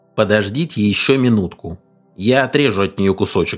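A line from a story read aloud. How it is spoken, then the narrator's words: Angry reply. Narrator (Russian): зло ответил Алленсон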